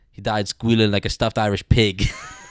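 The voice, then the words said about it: Imitates a movie character's funny accent. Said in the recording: “he's got a funny accent.”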